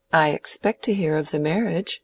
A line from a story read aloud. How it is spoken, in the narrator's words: said Rosamond playfully